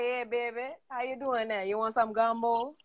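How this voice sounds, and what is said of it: Put-on New Orleans accent. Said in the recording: “I like the New Orleans accent”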